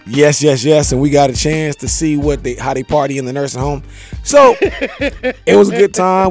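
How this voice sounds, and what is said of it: Worn-out voice after a late night. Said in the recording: “As you can tell from my voice that I was hanging out with the Over the Hill gang last night.”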